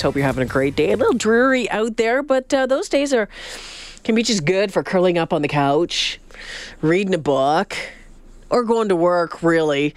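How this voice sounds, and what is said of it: Congested, stuffy-nosed voice. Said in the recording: “a touch of a cold ... My ears are plugged. My voice is a little odd. I've got a stuffy nose ... it doesn't make for the great sounding at times on radio”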